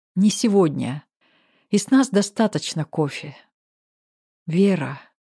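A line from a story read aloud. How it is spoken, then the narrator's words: Drawling. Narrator (Russian): Протянул Максим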